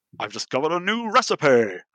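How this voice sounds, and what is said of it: Imitated voice of game character. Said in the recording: “That's a good impression.”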